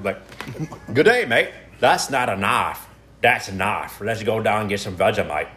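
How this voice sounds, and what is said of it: Put-on Australian accent. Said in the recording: “give me your best Australian accent”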